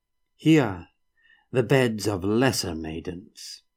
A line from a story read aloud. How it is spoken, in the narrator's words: Palama intoned